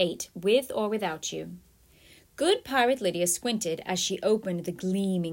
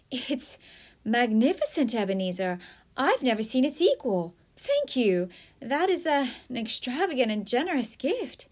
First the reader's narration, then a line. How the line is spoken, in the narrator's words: humbly exclaimed